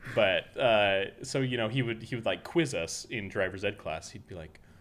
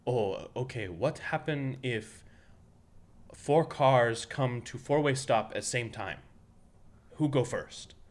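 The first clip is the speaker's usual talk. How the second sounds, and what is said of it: Imitated Korean-accented teacher voice. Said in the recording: “my best Korean impression ... doing an impression of Coach Kawa exactly as he spoke”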